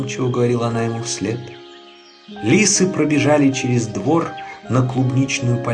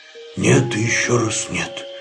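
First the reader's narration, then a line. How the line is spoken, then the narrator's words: Lonely groan. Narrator (Russian): простонал, чувствуя себя совсем одиноким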